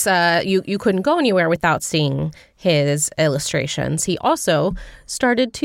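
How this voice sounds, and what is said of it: Usual voice. Nothing is said of it.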